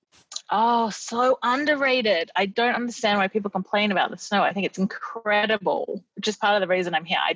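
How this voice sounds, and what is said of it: Australian accent. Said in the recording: “got an Australian accent”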